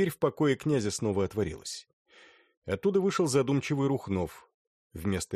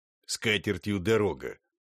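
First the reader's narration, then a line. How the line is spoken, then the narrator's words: Contemptuous, through teeth. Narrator (Russian): процедил презиравший Ляхов Терлецкий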